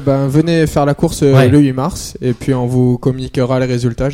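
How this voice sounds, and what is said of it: Noticeable regional French accent. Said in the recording (French): “d'où était Cyprien avec cet accent”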